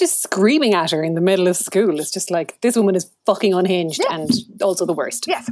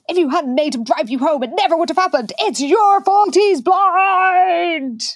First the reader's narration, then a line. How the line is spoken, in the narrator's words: And Amy yells